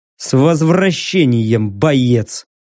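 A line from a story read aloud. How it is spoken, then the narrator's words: Gruff mutter. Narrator (Russian): буркнул я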